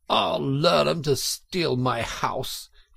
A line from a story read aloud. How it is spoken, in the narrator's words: he cried